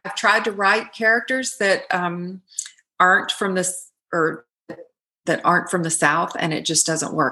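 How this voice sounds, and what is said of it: Southern twang. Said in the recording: “it's like my speaking voice. It has a Southern twang to it.”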